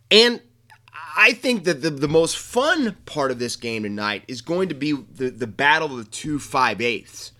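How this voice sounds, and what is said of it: Excited, energetic voice. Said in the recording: “I hope you can tell by my voice right now how excited I am”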